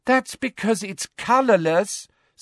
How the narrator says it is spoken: said Ginny in a convincingly exasperated voice

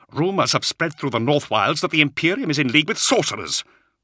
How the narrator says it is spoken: he spat angrily

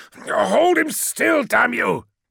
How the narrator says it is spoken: yelled Menkaura

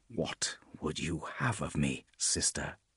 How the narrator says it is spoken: He asked, his voice almost a whisper

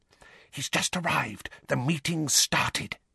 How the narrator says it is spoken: whispered urgently

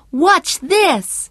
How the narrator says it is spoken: he shouted

